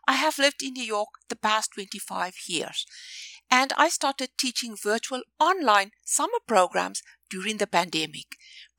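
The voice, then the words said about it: South African and New York accent. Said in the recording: “In case you're wondering about my accent, I'm a New Yorker, but originally from South Africa.”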